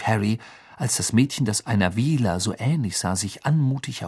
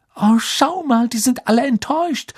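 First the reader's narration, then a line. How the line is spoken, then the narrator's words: Calling over the noise. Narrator (German): rief Hermine durch den Lärm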